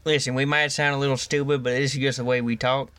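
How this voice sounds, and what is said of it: Put-on Southern Louisiana accent. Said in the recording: “Louisiana accent ... That's why I'm talking like this, because we're like sort of neighbors ... this accent I hate ... Southern people sound stupid ... Your accent”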